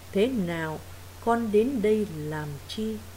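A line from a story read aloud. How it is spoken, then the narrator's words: Gentle old man. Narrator (Vietnamese): Ông vẫn dịu dàng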